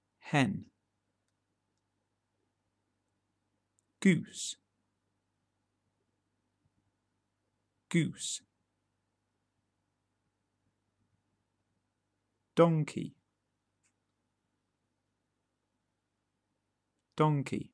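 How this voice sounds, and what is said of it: British English accent. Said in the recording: “Those were common farm animals pronounced in a British accent.”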